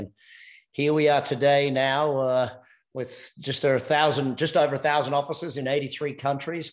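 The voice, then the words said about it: Australian accent. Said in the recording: “Australian by accent”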